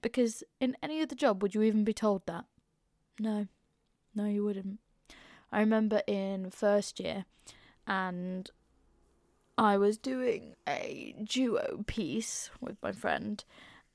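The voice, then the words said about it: Northern English regional accent. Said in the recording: “They want people without RP accents ... non-southerners. They want native regional accents, which is what I've bloody got”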